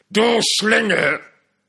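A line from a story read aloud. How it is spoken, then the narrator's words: Shouted. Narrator (German): schrie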